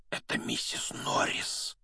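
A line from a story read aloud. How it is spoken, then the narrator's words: Breathed out. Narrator (Russian): выдохнул Рон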